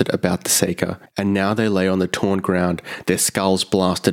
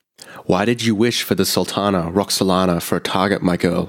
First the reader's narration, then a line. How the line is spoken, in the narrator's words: he asked